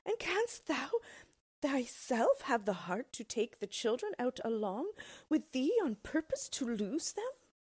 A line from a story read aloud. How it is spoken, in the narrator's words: cried out his wife